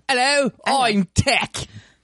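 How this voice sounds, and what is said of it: Put-on British accent. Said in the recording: “with a British accent.”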